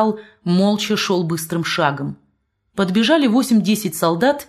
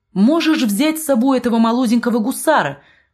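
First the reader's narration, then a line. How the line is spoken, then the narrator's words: Woman shouting. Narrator (Russian): крикнула маркитантка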